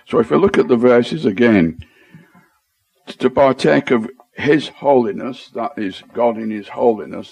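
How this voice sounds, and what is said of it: Strong Lancashire accent. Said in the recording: “my Greek with a strong Lancashire accent”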